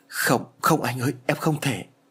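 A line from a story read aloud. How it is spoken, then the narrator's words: Trembling voice. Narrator (Vietnamese): Liễu run rẩy nói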